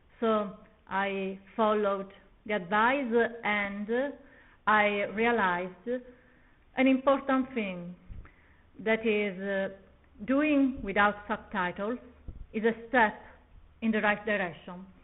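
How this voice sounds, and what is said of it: Strong Italian accent in English. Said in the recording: “my strong Italian accent.”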